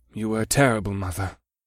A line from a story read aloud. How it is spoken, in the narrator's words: Scourge said without inflection